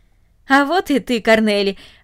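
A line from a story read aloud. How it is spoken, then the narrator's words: Joyful speech. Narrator (Russian): радостно сказал он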